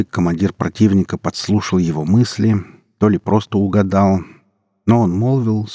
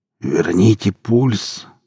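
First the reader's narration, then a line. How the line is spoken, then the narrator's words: Hoarse wheeze. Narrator (Russian): прохрипел Эдик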